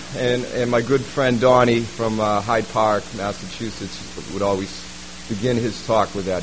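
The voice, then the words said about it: Slight Boston accent. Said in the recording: “I grew up in Boston, as you can tell my accent a little bit, on the East Coast side.”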